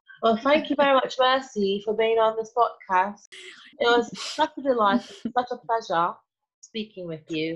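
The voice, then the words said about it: Put-on northern British accent. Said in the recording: “inject my British accent into this conversation ... Why do you sound northern? ... Maybe I'm northern British.”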